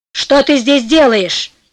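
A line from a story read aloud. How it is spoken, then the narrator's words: Plain. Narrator (Russian): спросил он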